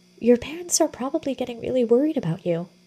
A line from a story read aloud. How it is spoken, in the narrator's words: Willow said gently